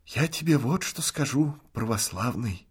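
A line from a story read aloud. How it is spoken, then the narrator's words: Hoarse half-whisper. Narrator (Russian): говорил Артем сиплым тенарковым полушептом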